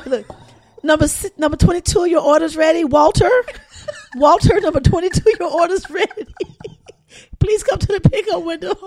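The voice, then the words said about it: Loud restaurant order-calling voice. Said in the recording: “excuse my voice. I got a restaurant yelling voice. ... This chick ain't got zero voice.”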